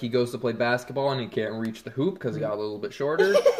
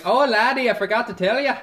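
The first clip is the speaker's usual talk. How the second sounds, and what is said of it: Exaggerated put-on Irish accent. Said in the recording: “got like this crazy Irish accent.”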